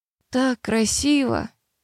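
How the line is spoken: Breathless, enchanted. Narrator (Russian): выдохнула она, явно очарованная

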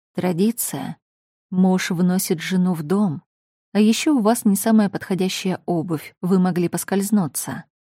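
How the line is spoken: Calm and serious. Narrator (Russian): Ответил спокойно и серьезно

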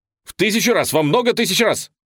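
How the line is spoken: Theatrical shout. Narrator (Russian): выкрикнул Гиберн театральным жестом

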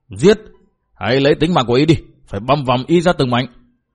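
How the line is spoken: Group shouting angrily. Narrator (Vietnamese): Bọn võ sĩ thấy Tổn Trung trúng thương, khắp mình mẩy đều lớn tiếng hô

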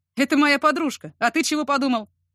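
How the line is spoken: Snorting burly man. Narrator (Russian): хмыкнул сутулый бородатый детина

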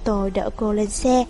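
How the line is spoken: Sighing. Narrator (Vietnamese): Mạc Tu Lăng thở dài

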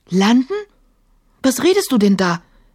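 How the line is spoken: Startled cry. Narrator (German): rief Emma erschrocken

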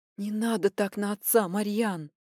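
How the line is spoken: Frightened whisper. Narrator (Russian): испуганно зашептала мама

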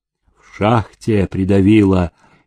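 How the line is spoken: Muffled, wary workers. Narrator (Russian): глухо отозвались работные, опасливо косясь на Демидова

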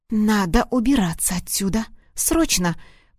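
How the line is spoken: Hissing into ear. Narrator (Russian): прошипела ему в ухо

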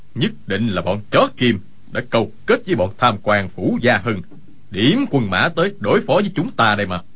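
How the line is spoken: Angry speech. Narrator (Vietnamese): Dương Sự Nhất tức giận nói

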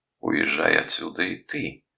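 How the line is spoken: Hoarse. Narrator (Russian): хрипло сказала она

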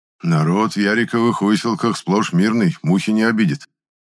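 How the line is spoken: Categorical declaration. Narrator (Russian): заявил Епифан категорическим тоном

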